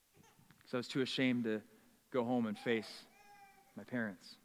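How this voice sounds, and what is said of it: Usual voice. Nothing is said of it.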